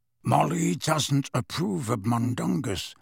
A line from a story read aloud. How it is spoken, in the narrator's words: said Sirius in an undertone